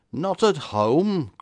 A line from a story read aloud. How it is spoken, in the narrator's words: cried the vibrant voice